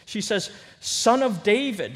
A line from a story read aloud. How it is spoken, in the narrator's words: she cries out